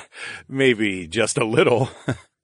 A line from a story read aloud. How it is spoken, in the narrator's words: I laughed